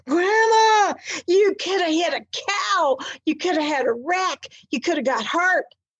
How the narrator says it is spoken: All 6 grandchildren screamed in unison

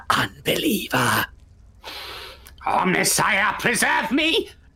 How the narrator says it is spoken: leers towards you and hisses

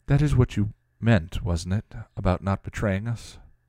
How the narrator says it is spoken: Tara said softly

